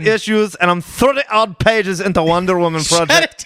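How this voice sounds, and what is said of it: Bad put-on Scottish accent. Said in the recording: “That was the worst Scottish accent ever.”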